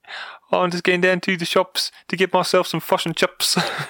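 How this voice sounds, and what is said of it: Put-on New Zealand accent. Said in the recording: “would be Kiwi... South African, I thought.”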